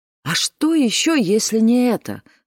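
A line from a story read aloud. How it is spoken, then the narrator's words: Exclaimed. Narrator (Russian): воскликнула Луиза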